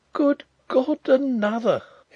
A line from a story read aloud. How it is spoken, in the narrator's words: he exclaimed faintly